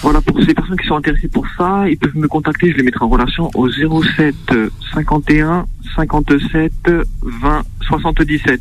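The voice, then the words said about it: Corsican French accent. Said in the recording (French): “ton accent corse”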